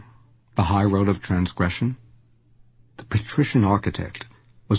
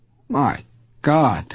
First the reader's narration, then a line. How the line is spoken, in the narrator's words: cried Lulavov